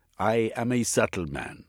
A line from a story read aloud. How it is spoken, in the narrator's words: said Gandhi